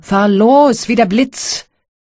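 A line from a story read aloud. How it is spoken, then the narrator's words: Shouting to coachman. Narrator (German): Kowalow schrie dem Kutscher zu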